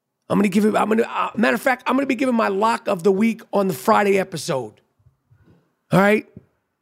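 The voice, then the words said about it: Damaged, strained voice. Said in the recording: “as you could hear, my voice is fucked up ... my voice is definitely suffering”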